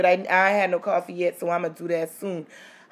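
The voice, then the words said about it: Slightly rough, scraggly voice. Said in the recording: “I'm a little scraggly this morning, too... so my voice is a little”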